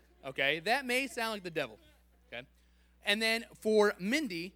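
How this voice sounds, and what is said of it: Usual voice. Nothing is said of it.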